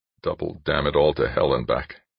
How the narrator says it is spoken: Dan muttered

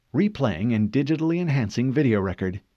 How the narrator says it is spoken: Cortana said

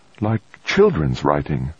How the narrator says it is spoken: Hall murmured

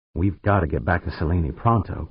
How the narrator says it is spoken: Pancho said

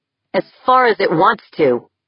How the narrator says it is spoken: snapped

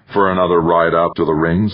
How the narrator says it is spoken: Everly said

